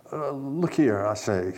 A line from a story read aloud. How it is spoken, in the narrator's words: he stammered